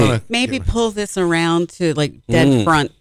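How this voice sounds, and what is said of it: Usual voice. Nothing is said of it.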